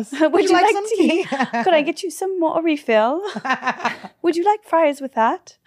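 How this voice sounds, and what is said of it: Posh British accent. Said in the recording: “You're a posh one. ... I'm posh. ... British”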